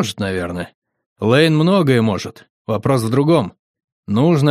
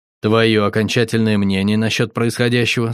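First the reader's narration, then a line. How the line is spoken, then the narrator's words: Plain. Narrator (Russian): спросил я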